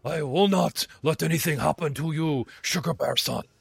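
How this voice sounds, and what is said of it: Impression of the character Leon. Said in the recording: “Can you do an impression of him”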